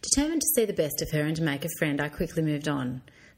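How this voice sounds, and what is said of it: Australian country twang accent. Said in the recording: “I could tell by the country twang in your accent ... I've earned every bit of my twang”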